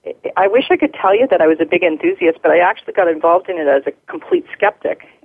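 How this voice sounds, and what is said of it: Canadian accent. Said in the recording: “in downtown Toronto in Canada, just in case anyone's noticing that accent.”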